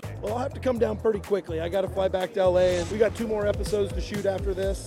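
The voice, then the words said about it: Excited, pumped-up voice. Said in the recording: “I'm pretty pumped up. You can already tell it in my voice.”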